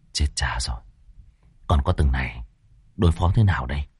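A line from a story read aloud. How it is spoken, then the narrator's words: Worried muttering. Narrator (Vietnamese): A Pủa miệng lẩm bẩm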